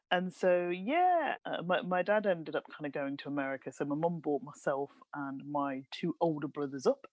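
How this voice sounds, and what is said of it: Birmingham (Brummie) English accent. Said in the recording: “I am fully a Brummie with a Brummie accent”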